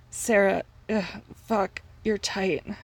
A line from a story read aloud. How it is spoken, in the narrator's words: groaned grumpy